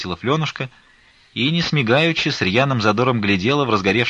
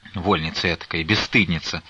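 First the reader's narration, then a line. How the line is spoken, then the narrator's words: Grumbling. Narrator (Russian): ворчала Назарета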